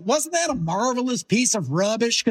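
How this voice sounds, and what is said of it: Imitates another person's voice. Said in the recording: “It's a pretty good Mark Hamill impression,”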